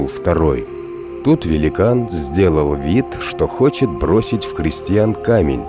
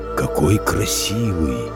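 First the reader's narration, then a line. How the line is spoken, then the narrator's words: Giant's whisper. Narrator (Russian): прошептал великан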